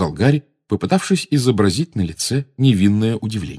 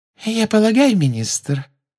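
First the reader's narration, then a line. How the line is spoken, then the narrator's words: Silky sweet voice. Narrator (Russian): шелковым голоском сказала из-за его спины Амбридж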